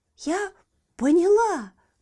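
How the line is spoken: Exclaimed. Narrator (Russian): воскликнула Еля

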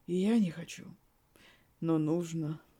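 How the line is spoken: Sad. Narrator (Russian): грустно произнес блондин

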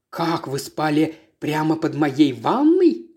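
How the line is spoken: Whisper. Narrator (Russian): прошептал

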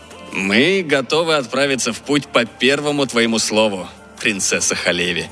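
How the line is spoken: Mocking. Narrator (Russian): насмешливо произнес Иосиф

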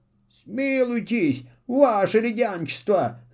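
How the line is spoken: Whimpering plea. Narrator (Russian): захныкал Филин

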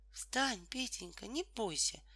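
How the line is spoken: Quiet patient mother. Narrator (Russian): тихо и терпеливо сказала мама

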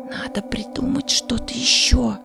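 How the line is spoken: Whispered. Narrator (Russian): прошептал Вахмурка

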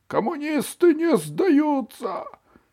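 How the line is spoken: Hoarse wheeze. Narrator (Russian): хрипел Вовик

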